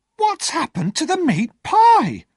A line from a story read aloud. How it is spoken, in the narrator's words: she cried